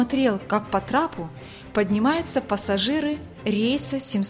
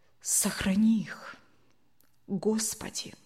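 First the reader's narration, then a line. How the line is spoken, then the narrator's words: Unconscious whisper. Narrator (Russian): Совсем неосознанно прошептал Евгений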